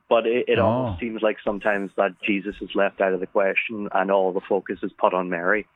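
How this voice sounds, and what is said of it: Irish accent. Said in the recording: “I love that accent, that Irish accent.”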